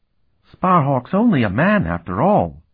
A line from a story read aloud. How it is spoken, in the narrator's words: Lycaeus said in his whining voice